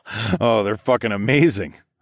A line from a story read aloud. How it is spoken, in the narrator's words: I chuckled